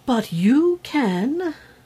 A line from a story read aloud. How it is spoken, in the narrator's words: cried the fairy